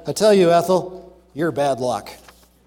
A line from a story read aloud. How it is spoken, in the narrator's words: The man sighed and said